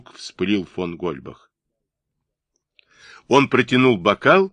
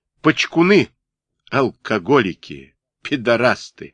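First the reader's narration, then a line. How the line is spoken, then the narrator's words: Loud. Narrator (Russian): громко сказал он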